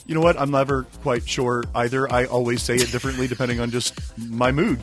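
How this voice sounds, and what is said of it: Sore-throated, slightly congested voice. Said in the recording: “I have a sore throat and a bit of a cold or something going on”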